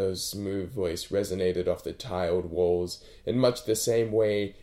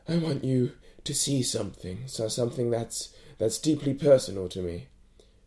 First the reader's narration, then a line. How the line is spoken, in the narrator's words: managed between breaths